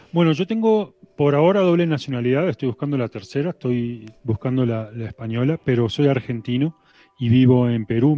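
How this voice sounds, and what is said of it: Latin American Spanish accent. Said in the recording (Spanish): “Tu acento delata que eres de América”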